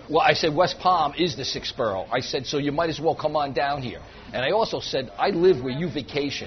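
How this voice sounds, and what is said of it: New York accent. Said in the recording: “If you can't tell from his accent, John Reese is a native New Yorker.”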